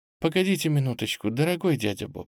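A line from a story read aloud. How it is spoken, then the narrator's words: Affectionate. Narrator (Russian): ласково сказала княжна Лидия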